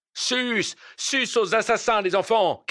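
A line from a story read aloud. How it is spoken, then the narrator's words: Shouted. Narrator (French): cria quelqu'un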